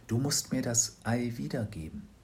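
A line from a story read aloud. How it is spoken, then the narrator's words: Whispered. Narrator (German): flüsterte sie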